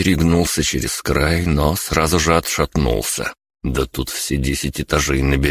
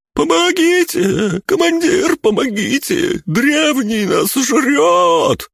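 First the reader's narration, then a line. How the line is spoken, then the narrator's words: Squealing knight. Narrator (Russian): завизжал рыцарь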